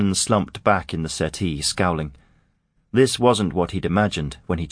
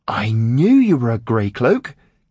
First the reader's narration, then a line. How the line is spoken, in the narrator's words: Cade exclaimed